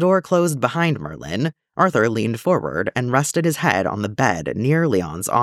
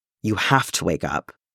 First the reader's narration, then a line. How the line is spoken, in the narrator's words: Arthur murmured, as exhaustion finally claimed him